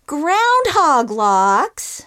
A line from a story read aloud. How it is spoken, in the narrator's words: said Baby Bear, and his little voice went into an even squeakier, more irritating register